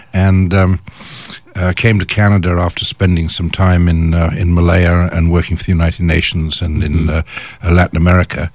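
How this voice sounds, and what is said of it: English accent. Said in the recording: “I started life in England, as everybody can probably tell from my accent”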